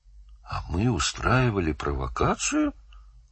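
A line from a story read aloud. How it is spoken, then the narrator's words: Gentle asking. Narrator (Russian): ласково спросил Данил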